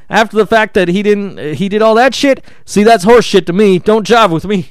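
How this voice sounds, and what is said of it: Imitates another person's voice. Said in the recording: “my Steve Austin show impression”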